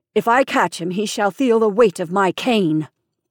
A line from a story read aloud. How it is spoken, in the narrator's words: said angrily